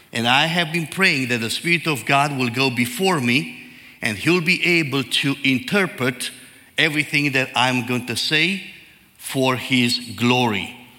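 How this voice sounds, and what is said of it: Heavy Eastern European accent. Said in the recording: “I talk like Elmer Fudd ... my heavy accent, Eastern European accent”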